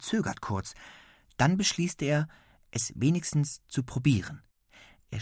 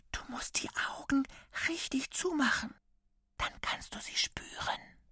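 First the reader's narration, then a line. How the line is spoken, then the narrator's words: Whisper. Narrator (German): Lasse plötzlich seine Hand drückt und flüstert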